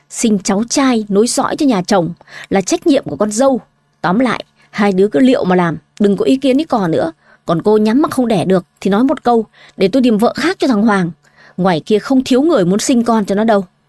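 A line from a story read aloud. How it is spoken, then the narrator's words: Harsh stern voice. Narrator (Vietnamese): Bà Liên gằn giọng đáp lời Minh Anh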